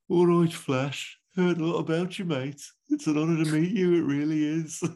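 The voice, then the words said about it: Poor put-on Birmingham accent. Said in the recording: “the octopus has a very brummy voice ... in my worst Brummy accent, I'm going to blame the COVID accent on this as well”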